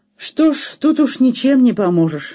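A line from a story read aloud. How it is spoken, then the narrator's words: Almost cheerful woman. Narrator (Russian): сказала она почти весело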